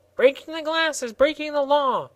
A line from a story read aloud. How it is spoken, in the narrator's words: squeaked the gardener angrily